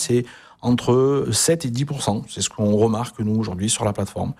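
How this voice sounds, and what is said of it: Southern French accent from Avignon. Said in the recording (French): “est né en Avignon ... on entend l'accent aussi depuis tout à l'heure ... La fierté, elle est vraiment audible”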